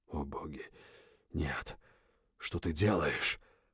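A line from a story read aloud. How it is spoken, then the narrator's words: Horrified breathless exclamation. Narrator (Russian): Выдохнул в ужасе от моей наглости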